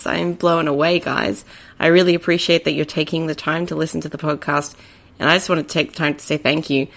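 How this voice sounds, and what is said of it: Australian accent. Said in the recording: “I'm based in Brisbane, Australia, in case you couldn't tell by my accent”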